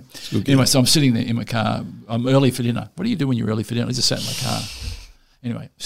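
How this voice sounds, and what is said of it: Usual voice. Nothing is said of it.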